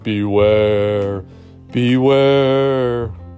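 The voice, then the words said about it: Spooky character voice. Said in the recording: “spooky voice”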